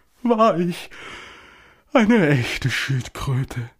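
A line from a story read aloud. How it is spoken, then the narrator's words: Blurted with deep sigh. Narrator (German): stieß die falsche Suppenschildkröte schließlich mit einem tiefen Seufzer hervor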